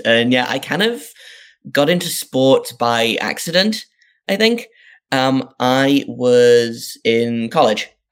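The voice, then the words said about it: Northeast English accent. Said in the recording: “I grew up in the northeast of England, if people can't tell from my accent.”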